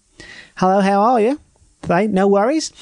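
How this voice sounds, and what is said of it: Subtle put-on Australian accent. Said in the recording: “This is my Australian accent. It's kind of a subtle one here... This is a very normal Australian accent.”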